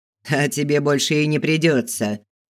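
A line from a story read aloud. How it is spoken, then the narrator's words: Deep bass laugh. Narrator (Russian): Хохотнул басом кто-то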